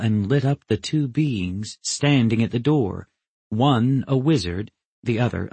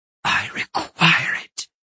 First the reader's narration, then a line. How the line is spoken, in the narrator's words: she whispered fiercely